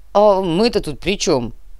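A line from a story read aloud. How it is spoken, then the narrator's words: Grumbling. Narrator (Russian): проворчал Чернослав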